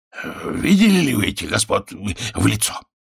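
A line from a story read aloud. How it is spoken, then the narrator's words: Suddenly hoarse question. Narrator (Russian): спросил внезапно охрипшим голосом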